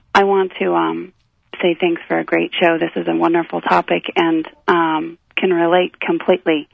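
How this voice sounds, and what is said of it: Hoarse voice. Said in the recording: “Forgive my voice. I've got something going on... I sound a little hoarse.”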